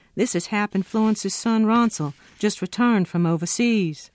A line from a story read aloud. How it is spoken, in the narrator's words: I called out to Henry